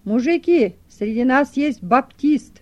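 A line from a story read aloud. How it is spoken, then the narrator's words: Elderly man's loud announcement. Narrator (Russian): один пожилой мужчина громко объявил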